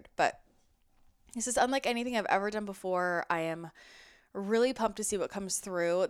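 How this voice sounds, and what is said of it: Slightly congested, odd-sounding voice. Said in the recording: “I'm getting over a cold, so sorry if I sound a little weird”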